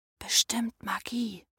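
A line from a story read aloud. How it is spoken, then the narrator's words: Whispered. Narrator (German): flüsterte Jonas oft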